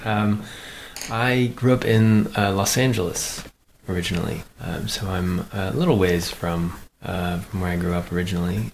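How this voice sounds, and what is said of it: Non-local, not Huddersfield accent. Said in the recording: “I can tell some accents, and I can tell that's not a Huddersfield accent.”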